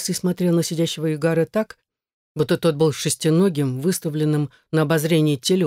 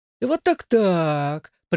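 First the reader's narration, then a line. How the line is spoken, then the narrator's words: Drawled. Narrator (Russian): протянул черноухий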